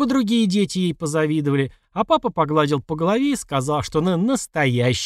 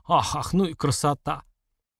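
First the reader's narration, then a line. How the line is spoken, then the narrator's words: Old man muttering. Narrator (Russian): дедушка бормоча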